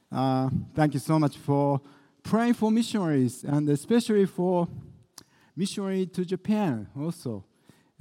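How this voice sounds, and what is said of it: English with Japanese-French accent. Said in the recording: “you are stuck with my English with the Japanese and French accent.”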